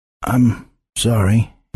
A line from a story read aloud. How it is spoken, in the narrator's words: finally croaked